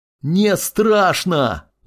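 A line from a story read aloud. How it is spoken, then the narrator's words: Teen shouting. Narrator (Russian): закричал подросток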